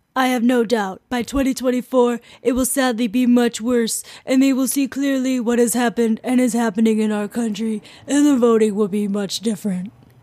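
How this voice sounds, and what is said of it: Donald Trump impression. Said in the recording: “After that impression, I should not audition for SNL”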